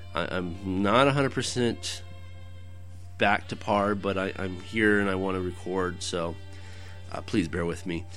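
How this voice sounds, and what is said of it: Cracky, strained voice. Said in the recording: “my voice is a little cracky”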